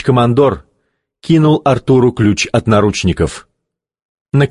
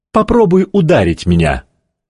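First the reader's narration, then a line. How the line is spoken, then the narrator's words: Plain. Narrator (Russian): сказал Кей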